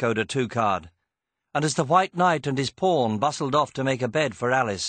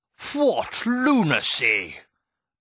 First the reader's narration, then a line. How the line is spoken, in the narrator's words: boomed Jack of Diamonds